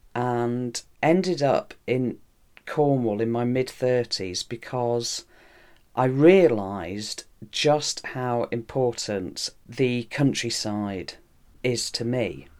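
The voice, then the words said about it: Non-Cornish English accent. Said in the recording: “from your accent that you're not from Cornwall originally”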